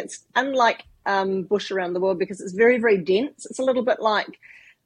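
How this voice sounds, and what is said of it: New Zealand accent. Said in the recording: “as you can tell from my accent ... I do come from New Zealand”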